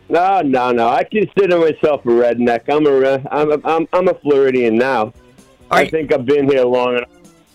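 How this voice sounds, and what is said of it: Brooklyn accent. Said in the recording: “I just can't get rid of dopey Brooklyn accent.”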